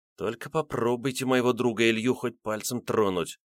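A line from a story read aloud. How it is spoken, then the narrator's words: Boy muttering angrily. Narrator (Russian): зло пробормотал мальчишка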